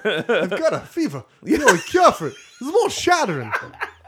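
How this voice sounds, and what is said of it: Imitates another person's voice. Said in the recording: “This is almost Christopher Walken. ... That's the worst impression ever.”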